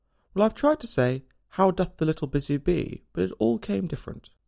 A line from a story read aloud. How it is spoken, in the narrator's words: Alice replied in a very melancholy voice